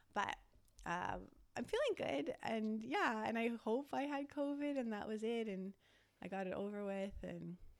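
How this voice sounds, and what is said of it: Slightly raspy voice. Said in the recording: “you can like kind of hear my voice. It's a bit like raspy.”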